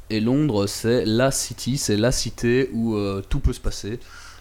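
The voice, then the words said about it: Put-on English accent. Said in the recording (French): “Je prends l'accent English maintenant.”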